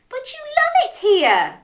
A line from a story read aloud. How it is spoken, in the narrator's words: cried Crab